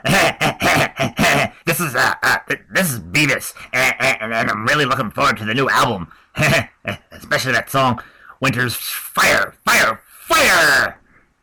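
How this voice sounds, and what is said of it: Cartoon character voice impression. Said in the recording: “great Beavis impression”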